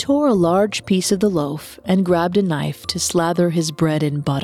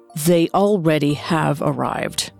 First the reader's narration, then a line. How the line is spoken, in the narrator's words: grumbled